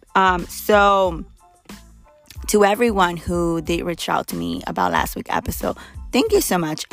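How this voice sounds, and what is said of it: Hoarse, fading voice. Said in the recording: “I'm literally losing my voice right now. Out of nowhere, it just went away. I guess I'm getting sick or something.”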